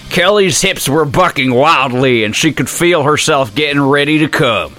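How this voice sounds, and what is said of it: Put-on Southern US accent. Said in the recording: “I feel like this needs a southern accent.”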